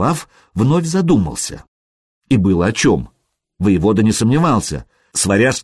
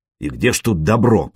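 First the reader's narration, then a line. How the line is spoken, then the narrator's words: Grumbling. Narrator (Russian): проворчал Наслав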